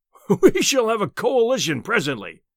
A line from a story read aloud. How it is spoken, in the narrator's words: he boomed